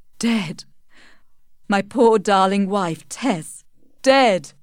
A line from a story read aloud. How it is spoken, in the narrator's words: he sobbed